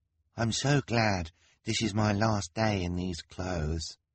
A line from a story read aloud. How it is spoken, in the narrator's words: Hugo murmured to the Baudelaires